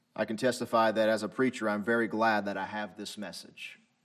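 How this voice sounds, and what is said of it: Thick Southern American accent. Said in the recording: “My southern accent is too thick.”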